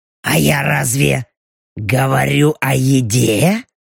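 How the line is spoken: Purring. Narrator (Russian): Мурлыкнула белочка

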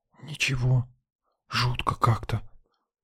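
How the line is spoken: Whisper. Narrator (Russian): прошептала отважная авантюристка

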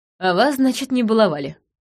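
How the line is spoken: Wry snort. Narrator (Russian): хмыкнула я

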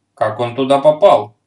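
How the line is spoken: Stern question. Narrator (Russian): строго спросил Берсеньев

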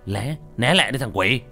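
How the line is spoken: Shouting. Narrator (Vietnamese): Hùng hét lên

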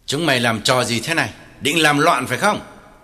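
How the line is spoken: Harsh question. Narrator (Vietnamese): Lý Trường gay gắt hỏi

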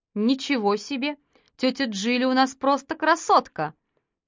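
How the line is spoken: Laughing. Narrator (Russian): Матильда засмеялась

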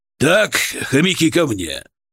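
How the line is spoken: Barking. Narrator (Russian): рявкнул Шаповалов

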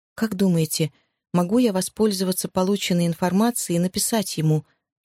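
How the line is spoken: Plain. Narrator (Russian): спросила она

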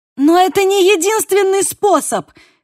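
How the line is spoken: Shouted. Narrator (Russian): крикнула я

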